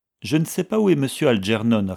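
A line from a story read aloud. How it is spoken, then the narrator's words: Plain. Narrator (French): répondit Jem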